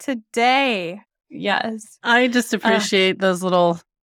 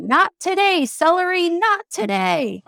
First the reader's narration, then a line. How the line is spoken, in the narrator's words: MBC, who was at that moment drinking celery juice while yelling